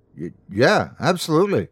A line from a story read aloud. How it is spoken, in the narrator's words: I stammered